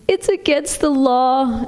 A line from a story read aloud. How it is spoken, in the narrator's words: Emery wailed, and fat tears began to fall down his face